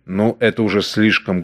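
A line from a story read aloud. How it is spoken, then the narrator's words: Rude interruption. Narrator (Russian): грубо оборвал ее Ной Бауэр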